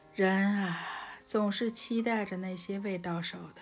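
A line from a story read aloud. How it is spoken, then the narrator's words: Sighing. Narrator (Chinese): 上帝叹道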